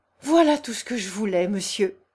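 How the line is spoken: Young man's exclamation. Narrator (French): s'écria le jeune homme

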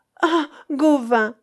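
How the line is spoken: Maiden exclaiming. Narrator (French): s'écria la pucelle

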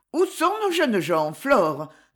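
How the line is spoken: Almost cheerful voice. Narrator (French): demanda-t-elle d'une voix presque gaie

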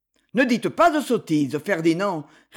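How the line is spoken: Curt dry retort. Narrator (French): répliqua Lord Gérald d'un ton sec

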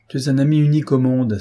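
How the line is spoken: Warm exclamation. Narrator (French): s'écria-t-il

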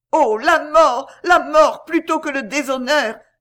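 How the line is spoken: Frantic exclamation. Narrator (French): s'écria Berthier d'un air hagard

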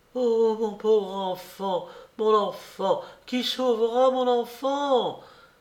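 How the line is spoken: Mother's heartrending cry. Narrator (French): s'écria la mère d'une voix déchirante

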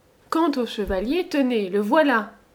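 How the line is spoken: Exclamation. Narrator (French): s'écria-t-il

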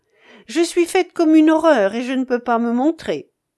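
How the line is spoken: Laughing. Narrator (French): disait-elle en riant

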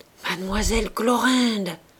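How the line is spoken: Deeply moved murmur. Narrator (French): Délestant, accourut en murmurant, l'air très ému

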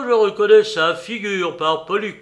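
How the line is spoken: Exclaimed. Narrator (French): s'écria Pansa

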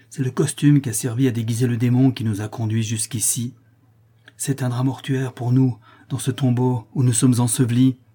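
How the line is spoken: Exclaimed. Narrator (French): s'écria Paolo

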